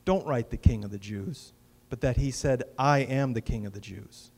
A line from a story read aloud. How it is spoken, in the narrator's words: Pilate replied